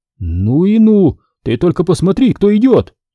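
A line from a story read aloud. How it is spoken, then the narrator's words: Amazed exclamation. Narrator (Russian): Позабыв на мгновение обо всем на свете, доктор изумленно воскликнул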